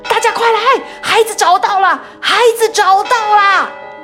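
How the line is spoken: Excited shouting. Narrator (Chinese): 有人激动的大喊道

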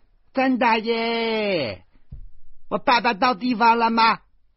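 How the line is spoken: Shouting and calling. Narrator (Chinese): 边喊边叫

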